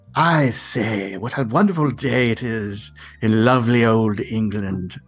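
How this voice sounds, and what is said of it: Put-on English accent. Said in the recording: “Give me anything that sounds remotely English ... It's not bad. It's better than your American accent.”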